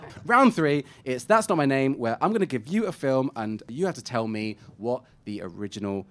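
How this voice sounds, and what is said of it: Usual voice. Nothing is said of it.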